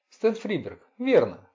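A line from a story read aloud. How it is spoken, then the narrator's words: Laughing loudly. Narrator (Russian): Форестер расхохотался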